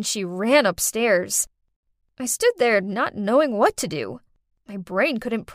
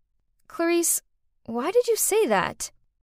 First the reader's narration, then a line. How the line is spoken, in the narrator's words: calmly said